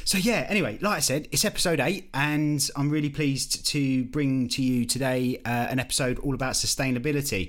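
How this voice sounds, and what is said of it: Essex accent. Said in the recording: “my dulcet Essex tones”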